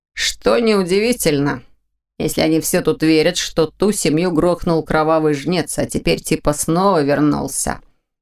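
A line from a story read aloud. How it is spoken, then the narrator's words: Smirking snort. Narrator (Russian): хмыкнул Ваня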